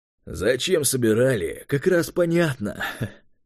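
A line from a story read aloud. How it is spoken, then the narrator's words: Condescending snort. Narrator (Russian): хмыкнул Юрий снисходительно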